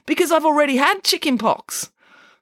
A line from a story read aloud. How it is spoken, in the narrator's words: said Michael happily